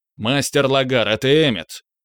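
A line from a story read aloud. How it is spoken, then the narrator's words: Loud blurt. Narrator (Russian): Громко выпалил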